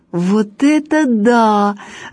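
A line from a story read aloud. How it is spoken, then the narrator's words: Laughing. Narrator (Russian): рассмеялась Галя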